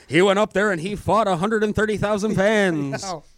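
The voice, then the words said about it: Sports announcer voice. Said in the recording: “let me get my announcer voice on”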